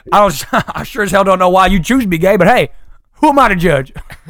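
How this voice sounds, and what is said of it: Put-on Deep South accent. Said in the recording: “we're doing it in a deep South accent”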